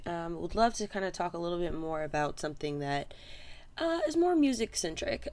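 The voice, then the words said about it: Hoarse, fading voice. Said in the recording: “I'm losing my voice just a bit”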